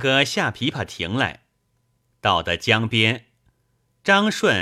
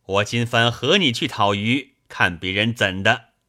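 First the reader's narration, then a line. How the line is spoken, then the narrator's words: Laughing. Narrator (Chinese): 张顺笑将起来，说道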